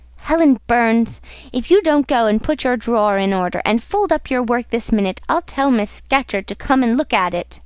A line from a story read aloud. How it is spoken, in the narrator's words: exclaiming in a strong Cumberland accent